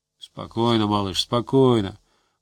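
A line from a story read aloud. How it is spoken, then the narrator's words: Muttered. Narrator (Russian): пробормотал Гусев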